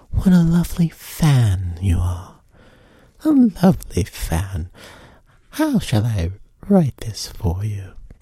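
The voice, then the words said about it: Regal put-on British accent. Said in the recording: “she said it more like ... Sometimes I slip into a British accent ... because I feel like the queen ... You were very regal.”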